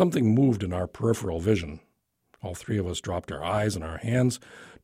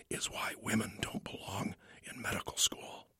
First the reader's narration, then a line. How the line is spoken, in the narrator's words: whispered Murphy